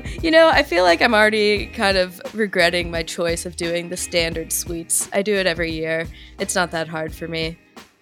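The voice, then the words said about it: Sick-sounding voice. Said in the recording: “besides getting COVID... You can probably hear in my voice.”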